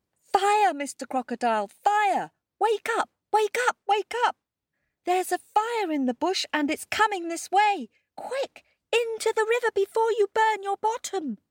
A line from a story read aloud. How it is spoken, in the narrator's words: he shouted